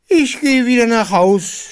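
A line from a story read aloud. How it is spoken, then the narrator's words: Shouting ostrich. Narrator (German): schrie der Strauß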